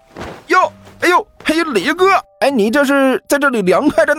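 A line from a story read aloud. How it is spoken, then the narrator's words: Loud. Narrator (Chinese): 大声说道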